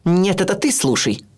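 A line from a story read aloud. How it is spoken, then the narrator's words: Harsh bark. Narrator (Russian): рявкнула она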